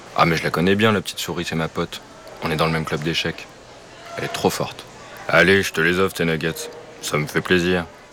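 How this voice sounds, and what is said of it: Deep gruff character voice. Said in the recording (French): “grosse voix ... avec sa grosse voix”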